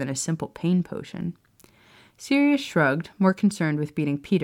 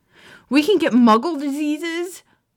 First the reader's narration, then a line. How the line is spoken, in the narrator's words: Peter exclaimed loudly, a look of horror and disgust on his face